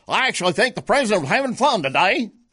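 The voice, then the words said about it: James Carville impression, Cajun accent. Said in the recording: “I can't quite do his southern Louisiana Cajun accent, but I can come darn close to it.”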